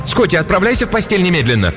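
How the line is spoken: Shouting, third time. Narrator (Russian): Кристин в 3-й раз крикнула

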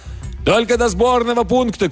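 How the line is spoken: Shouted reply. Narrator (Russian): крикнул в ответ профессор

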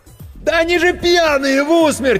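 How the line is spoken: Frantic yelling. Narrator (Russian): истошно заорал Серега

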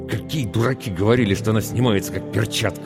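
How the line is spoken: Angry, through clenched teeth. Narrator (Russian): зло процедил он сквозь зубы

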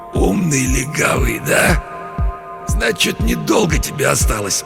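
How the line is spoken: Hoarse wheeze, injured man. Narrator (Russian): Человек с разбитым лицом прохрипел

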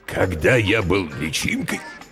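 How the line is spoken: Hoarse, coughing. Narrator (Russian): хрипло начал родитель, закашлялся

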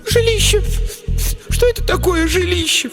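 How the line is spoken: Sobbing. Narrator (Russian): всхлипнула другая

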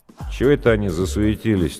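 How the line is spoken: Lazy surprise. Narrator (Russian): так лениво удивился Гуляев

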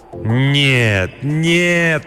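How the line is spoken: Groaning. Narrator (Russian): простонал он

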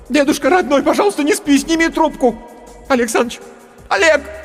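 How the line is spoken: Shouting in someone's face. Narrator (Russian): Стажерка теперь она кричала мне в лицо

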